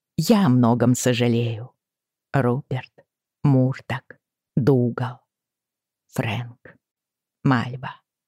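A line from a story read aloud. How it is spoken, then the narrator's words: Quiet, choked voice. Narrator (Russian): добавила я тихо, и горло перехватило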